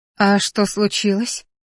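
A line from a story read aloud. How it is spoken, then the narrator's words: Sleepy question. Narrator (Russian): сонно спросила я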